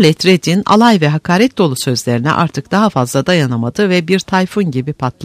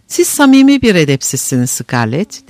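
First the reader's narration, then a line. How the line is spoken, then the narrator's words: Speaking then laughing loudly. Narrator (Turkish): dedikten sonra kahkahayla güldü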